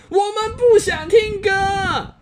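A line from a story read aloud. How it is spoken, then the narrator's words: Whole family roaring. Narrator (Chinese): 妈妈、爸爸和十五个兄弟姐妹全都跳起来吼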